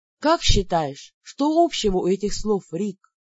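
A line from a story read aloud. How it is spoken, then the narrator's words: Quiet question close to ear. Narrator (Russian): тихо спросила, наклонившись к самому его уху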